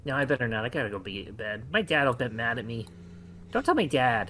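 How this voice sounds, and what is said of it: Weird little character voice. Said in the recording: “weird voice ... Little voices like that”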